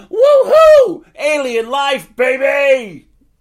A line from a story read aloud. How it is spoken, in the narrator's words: He laughed loudly, hysterically, breathing heavy